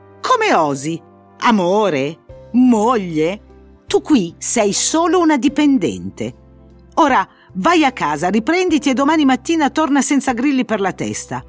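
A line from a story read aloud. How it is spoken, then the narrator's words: Outraged yelling. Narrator (Italian): urlò oltraggiato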